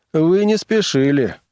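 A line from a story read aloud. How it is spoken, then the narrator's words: Sour tone. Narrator (Russian): заметил бармен кислым тоном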